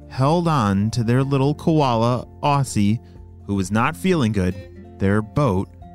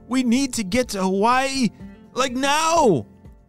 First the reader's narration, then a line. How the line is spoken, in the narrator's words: shouted Logan